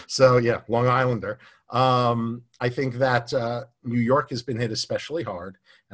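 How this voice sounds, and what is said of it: New York accent. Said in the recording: “I'm a former New Yorker, as you can hear from my voice.”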